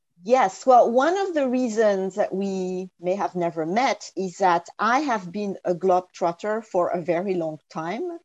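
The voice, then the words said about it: French accent in English. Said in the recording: “as everybody can hear from my accent, I was born and raised in France and didn't get to learn English until my teenage years”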